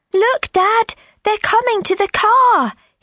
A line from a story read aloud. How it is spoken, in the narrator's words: cried